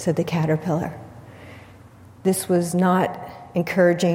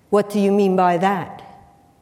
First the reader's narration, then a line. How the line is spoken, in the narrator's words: the Caterpillar said sternly